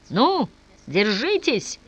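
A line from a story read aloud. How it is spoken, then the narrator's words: Shouted. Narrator (Russian): закричал возница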